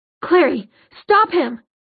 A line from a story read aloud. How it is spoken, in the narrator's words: he shouted